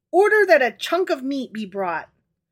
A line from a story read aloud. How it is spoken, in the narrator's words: cried